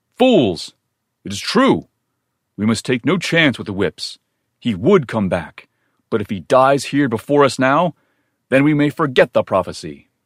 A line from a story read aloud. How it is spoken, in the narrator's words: one of the men cried